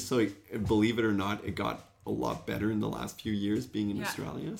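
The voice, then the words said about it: Mixed French, English, Australian accent. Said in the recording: “that's basically where my accent come from ... there's a little bit of everything now. A little bit of English, French, and Oz, I guess.”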